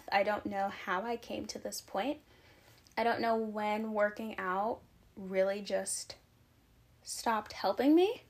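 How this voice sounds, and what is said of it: Breathless, out-of-breath speech. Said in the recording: “I'm genuinely out of breath. ... I've literally been talking and I'm out of breath. Do you hear me? ... Like, I'm out of breath.”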